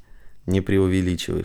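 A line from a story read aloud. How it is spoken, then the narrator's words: Flattered snort. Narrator (Russian): хмыкнул польщенный Самандар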